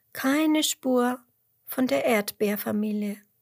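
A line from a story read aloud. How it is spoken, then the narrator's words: Sighing again. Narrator (German): seufzt Emmerla nochmal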